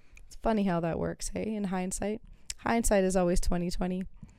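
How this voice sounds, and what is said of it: Voice fading, going hoarse. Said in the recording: “I'm starting to lose my voice.”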